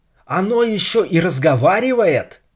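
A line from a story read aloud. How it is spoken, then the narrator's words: Shouting. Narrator (Russian): закричал он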